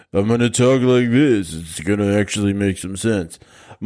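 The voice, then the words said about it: Imitates another person's voice. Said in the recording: “my old Sylvester Stallone impression would be something like”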